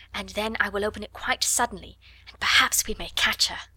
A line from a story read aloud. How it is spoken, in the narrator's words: she whispered